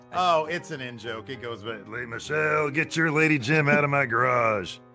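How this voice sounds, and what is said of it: Imitates a wrestler's voice. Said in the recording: “That's a really good Undertaker impression. ... That's a great Taker impression.”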